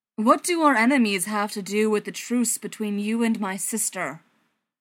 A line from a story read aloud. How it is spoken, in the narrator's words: Thor finally booms, bored with the riddles